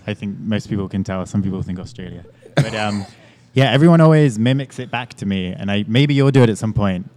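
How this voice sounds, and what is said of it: English accent. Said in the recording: “We got this nice accent right here... as Americans, we're always fascinated by accents... I feel like you're from London.”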